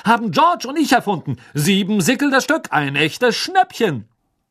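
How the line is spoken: Loud announcement to crowd. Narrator (German): verkündete Fred laut der aufgeregten Schülerschar

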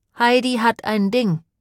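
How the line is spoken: Plain. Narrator (German): sagte sie

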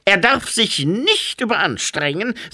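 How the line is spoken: Sharp. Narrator (German): sagte Frau Krieg scharf

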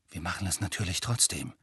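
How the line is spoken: Quiet. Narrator (German): sagte er leise

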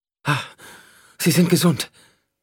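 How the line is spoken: Gasping. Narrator (German): keuchte

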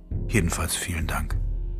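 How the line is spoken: Whisper. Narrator (German): flüsterte

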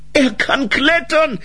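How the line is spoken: Shouting into ear. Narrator (German): schrie ihr von hinten ins Ohr

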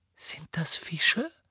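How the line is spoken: Breathy whisper. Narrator (German): hauchte Ginny

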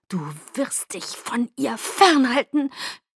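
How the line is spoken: Hissed. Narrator (German): zischte ich Jacob zu

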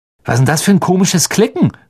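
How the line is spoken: Calling out. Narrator (German): rief Fred, als sie sich in eine Kurve legten

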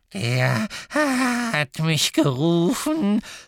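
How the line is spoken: Croaking. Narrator (German): krächzte Creature

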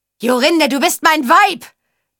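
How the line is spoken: Roaring. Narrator (German): brüllte Achat

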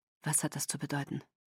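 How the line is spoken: Flat toneless question. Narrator (German): fragte Edward tonlos

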